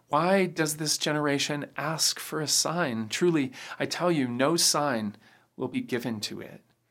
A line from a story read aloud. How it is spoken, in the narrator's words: Jesus groans and then says